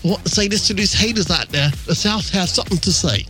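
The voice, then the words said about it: Put-on English accent. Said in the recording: “he has an English accent, of course... But he said it more like this.”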